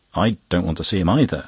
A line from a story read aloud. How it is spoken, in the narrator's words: jumped up suddenly, exclaiming